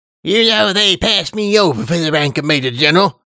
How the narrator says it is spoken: he said with an indignant snort

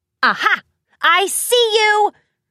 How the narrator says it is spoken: Rainbow shouted in triumph

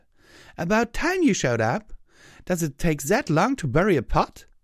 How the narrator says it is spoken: she called out

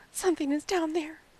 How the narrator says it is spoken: she gasped

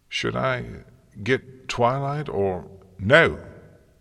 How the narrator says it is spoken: Celestia barked

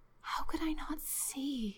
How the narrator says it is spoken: whispered

